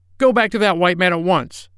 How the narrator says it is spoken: she yelled

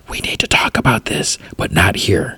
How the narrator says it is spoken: Sean whispers

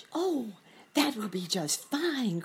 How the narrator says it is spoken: cried Sammy

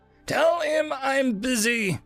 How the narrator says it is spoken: Dremsel yelled back

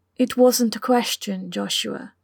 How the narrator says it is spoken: Lucy said in a much gentler tone

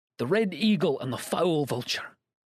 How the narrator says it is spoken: cried the old man

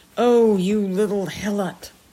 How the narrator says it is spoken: exclaimed

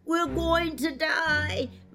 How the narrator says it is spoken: moaned the second

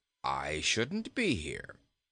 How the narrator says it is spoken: calmly replied Bilbil

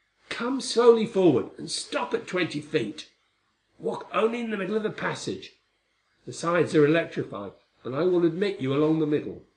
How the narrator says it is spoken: His voice called

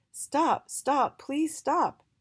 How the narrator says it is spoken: Y called out to Jolly

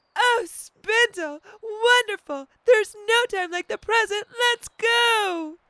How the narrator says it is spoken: Spiny ... with glee and exclaimed

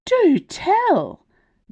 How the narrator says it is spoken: gasped Bella

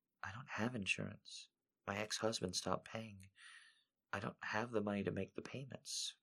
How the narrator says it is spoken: In a very soft voice, with her head down low, Angelica said

